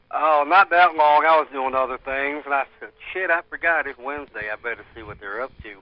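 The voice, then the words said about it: Redneck-sounding American accent. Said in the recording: “listen to his accent, though. ... That is not even a Florida accent, though. ... Redneck? ... NASCAR watching, redneck, yeah.”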